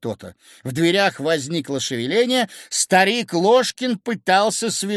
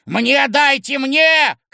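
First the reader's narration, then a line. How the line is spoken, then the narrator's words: Shouting from the door. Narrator (Russian): кричал от двери Ложкин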